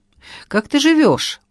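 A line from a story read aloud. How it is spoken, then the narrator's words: Unsure voice. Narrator (Russian): против воли голос мой звучал неуверенно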